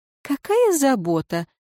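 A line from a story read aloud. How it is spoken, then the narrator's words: Mocking snort. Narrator (Russian): насмешливо фыркнула женщина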